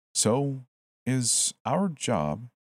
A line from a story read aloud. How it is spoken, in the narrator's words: I said slowly